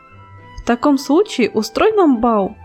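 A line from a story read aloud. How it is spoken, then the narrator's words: Exclaiming flowers, chorus. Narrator (Russian): воскликнули цветы шиповника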